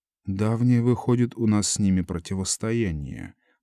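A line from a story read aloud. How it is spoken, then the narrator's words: Mutter. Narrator (Russian): пробормотал комиссар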